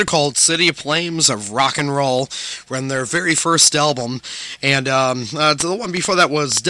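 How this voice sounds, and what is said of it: Usual voice. Nothing is said of it.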